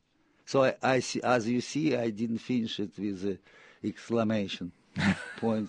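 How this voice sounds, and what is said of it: Siberian-accented English. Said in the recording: “my inevitably Siberian accent”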